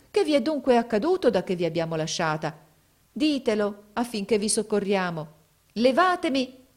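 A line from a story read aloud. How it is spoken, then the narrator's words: Exclaimed. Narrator (Italian): esclamò essa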